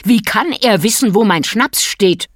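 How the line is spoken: Far too loud. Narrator (German): war er viel zu laut geworden

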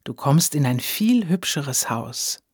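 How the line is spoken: Said softly. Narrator (German): sagte Edith leise

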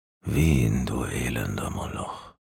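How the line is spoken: Shivering murmur. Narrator (German): murmelte er fröstelnd

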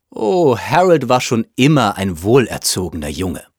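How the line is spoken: Plain. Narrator (German): sagte Mrs

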